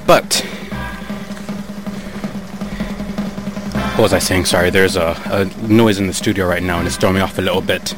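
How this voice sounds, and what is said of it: Out of breath, panting. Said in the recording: “I was absolutely losing my mind because I'm out of breath right now.”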